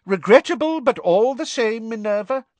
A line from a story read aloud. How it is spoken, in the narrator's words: Cornelius Fudge was saying loudly